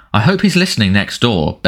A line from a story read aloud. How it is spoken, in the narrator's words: bellowed Uncle Vernon